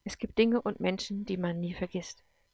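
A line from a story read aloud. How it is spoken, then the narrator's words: Quiet despairing self-talk. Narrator (German): sagte Gordon leise zu sich selber, und Verzweiflung stieg in ihm auf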